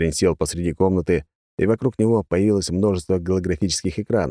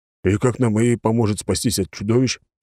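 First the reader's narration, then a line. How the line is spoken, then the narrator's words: Big man grumbling. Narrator (Russian): проворчал здоровяк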